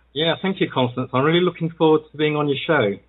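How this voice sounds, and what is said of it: Yorkshire English accent. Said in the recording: “you're from the UK... somewhere called Yorkshire... I love your accent... Very English... your English accent”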